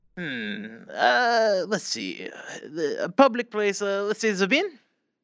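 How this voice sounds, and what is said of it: Put-on French accent. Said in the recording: “So French. ... your accent.”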